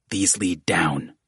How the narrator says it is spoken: Jacinto hissed

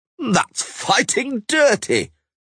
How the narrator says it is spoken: roared the halfling-sized mare, Pennycook, who was sensitive to fair play, and the crowd yelled with him

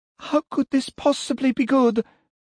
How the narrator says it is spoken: sobbed

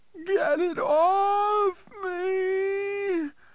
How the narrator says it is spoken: the woman shrieked in terror out of proportion to any threat that Woofer posed

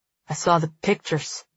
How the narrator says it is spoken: he mumbles, as if in apology

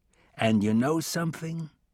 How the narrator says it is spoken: He said in a low, threatening tone

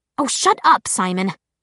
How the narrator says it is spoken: Clary snapped

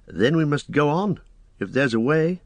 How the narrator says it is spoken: said Frodo with a sigh

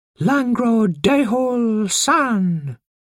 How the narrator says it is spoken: he cried out 3 times

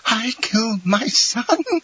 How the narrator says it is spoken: a frightful, demoniac laugh finished the sentence, which was lost in a hoarse rattle

